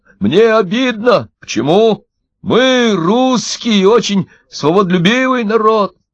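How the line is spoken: Shouted while tossed. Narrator (Russian): Когда их снова подкинули, Удалов крикнул

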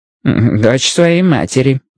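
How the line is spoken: Muttered to himself. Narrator (Russian): буркнул про себя Стюарт

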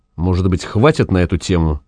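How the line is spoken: Quiet. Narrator (Russian): сказал Вепрь тихо

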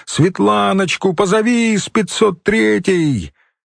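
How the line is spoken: Shouting. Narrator (Russian): она кричала кому-то

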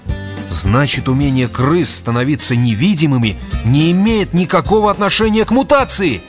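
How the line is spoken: Exclaimed. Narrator (Russian): воскликнул Грегор

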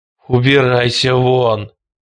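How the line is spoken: Moaning. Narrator (Russian): простонал Хелстон

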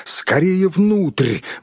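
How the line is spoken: Hobbit exclaiming. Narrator (Russian): воскликнул хоббит

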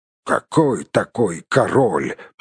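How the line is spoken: Grumbling mutter. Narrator (Russian): пробурчал

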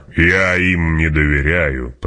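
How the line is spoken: Growled. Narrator (Russian): прорычал барон

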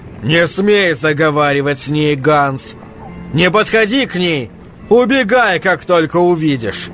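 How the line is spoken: Shouting. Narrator (Russian): кричал Якоб

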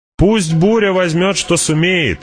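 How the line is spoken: Shouted. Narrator (Russian): закричала

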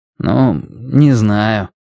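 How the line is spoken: Gloomy. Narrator (Russian): мрачно сказал

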